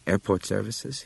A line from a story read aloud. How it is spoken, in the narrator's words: he asked